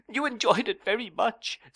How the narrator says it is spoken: sobbed Dora

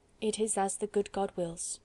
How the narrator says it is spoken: replied the old man quietly

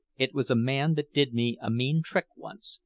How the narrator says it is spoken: answered Jurgis

